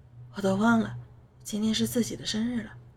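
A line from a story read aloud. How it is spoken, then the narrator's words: Soft voice. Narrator (Chinese): 姨妈轻声说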